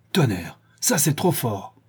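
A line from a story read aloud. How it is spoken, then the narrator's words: Angry exclamation. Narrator (French): s'écria le bandit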